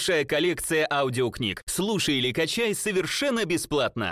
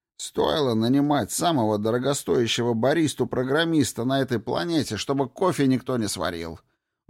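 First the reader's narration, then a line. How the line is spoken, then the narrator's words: Grumbled. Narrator (Russian): Буркнул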